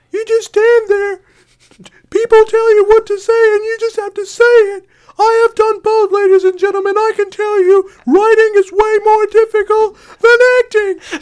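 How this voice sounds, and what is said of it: High-pitched Jerry Seinfeld impression. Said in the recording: “really good impersonation ... The best impersonation I've ever heard of ... 70% Jerry Seinfeld, 30% Farbs from high school ... Moses Lack-esque Jerry Seinfeld ... does have a slight... Farbs year seven extremely high pitch”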